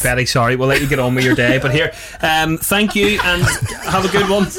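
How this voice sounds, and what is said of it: Usual voice. Nothing is said of it.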